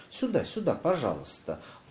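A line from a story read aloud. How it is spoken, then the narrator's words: Fawning voice. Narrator (Russian): сказала она заискивающим голосом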